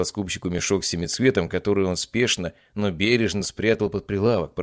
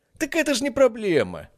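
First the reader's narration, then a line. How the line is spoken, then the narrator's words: Exclaimed. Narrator (Russian): воскликнул Петрович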